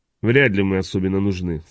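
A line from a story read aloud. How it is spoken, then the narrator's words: Calm. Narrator (Russian): спокойно проговорил Хок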